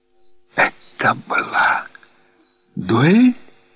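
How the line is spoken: Whispered. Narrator (Russian): прошептала

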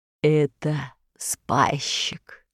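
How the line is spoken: Heavy sigh. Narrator (Russian): сказал карп и тяжко вздохнул

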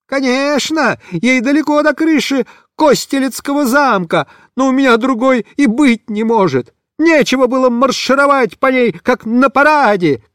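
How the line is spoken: Frantic shouting. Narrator (Russian): кричал Бобиш, будто помешанный

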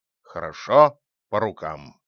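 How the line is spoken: Bear's grumble. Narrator (Russian): проворчал медведь

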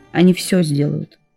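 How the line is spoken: Firm and calm. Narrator (Russian): сказал он твердо и спокойно

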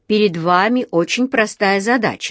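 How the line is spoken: Plain. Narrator (Russian): сказал он

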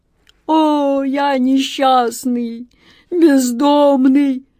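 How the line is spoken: Sobbing, wailing genie. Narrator (Russian): всхлипывал и причитал капризный джинн

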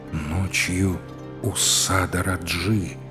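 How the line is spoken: Low-voiced repetition. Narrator (Russian): вполголоса повторил царевич

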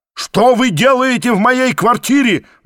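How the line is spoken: Roaring. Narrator (Russian): взревел я

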